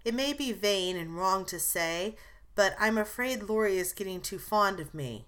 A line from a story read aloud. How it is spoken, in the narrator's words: slowly, with sudden color in her cheeks